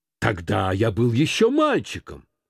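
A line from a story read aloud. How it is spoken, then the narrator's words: Impatient. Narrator (Russian): отвечал он нетерпеливым тоном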